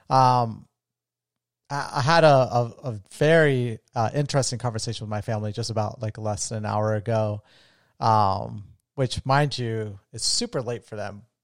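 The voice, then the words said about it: Strained, fading voice. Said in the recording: “I'm losing my voice. ... from talking too much the last couple days”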